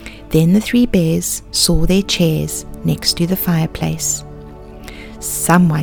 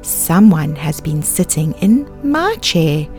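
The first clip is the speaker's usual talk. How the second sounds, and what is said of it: Deep, big bear voice. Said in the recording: “Papa Bear said in his great big voice.”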